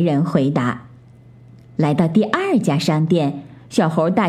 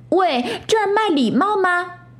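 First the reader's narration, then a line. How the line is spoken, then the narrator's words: Shouting. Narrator (Chinese): 小猴大喊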